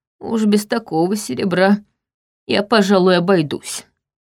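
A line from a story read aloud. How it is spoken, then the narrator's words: Grumbling. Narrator (Russian): проворчал он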